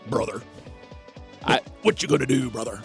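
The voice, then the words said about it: Imitates a wrestler's gravelly voice. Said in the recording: “my Hulk Hogan impersonation”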